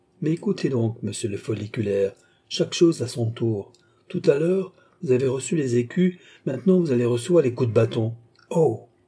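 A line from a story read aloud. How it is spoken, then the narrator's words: Exclaimed. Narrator (French): s'écria Rito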